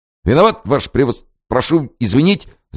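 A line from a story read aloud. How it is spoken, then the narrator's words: Babbling. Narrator (Russian): залепетал он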